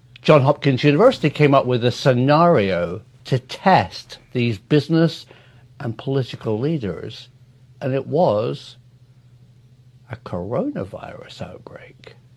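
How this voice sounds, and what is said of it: British accent. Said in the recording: “when a British guy tells me it ... I wish I had that accent.”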